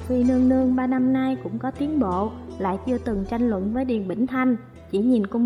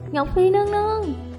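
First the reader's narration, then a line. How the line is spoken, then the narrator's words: Sobbing, begging. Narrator (Vietnamese): Cung nữ đó khóc cha khóc mẹ, cầu xin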